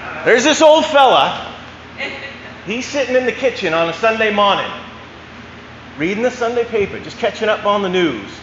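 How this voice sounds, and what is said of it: Put-on Maine accent. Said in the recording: “I can try to do it my best Maine accent.”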